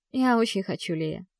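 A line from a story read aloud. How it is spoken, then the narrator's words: Quiet reply. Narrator (Russian): отвечаю тихо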